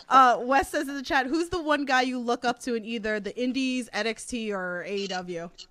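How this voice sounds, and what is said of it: Thick Queens New York accent. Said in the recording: “everybody always talks to me about my accent, like that thick Queens accent”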